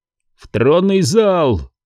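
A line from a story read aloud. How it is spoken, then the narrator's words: Shouting. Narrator (Russian): крикнул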